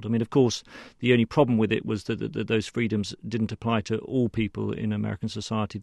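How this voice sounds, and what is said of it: British accent. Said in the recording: “we can hear your accent. You're a Brit.”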